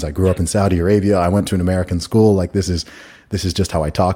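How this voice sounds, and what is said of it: British speaker with American-sounding accent. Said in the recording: “this guy's British, but he sounds American ... I sounded American”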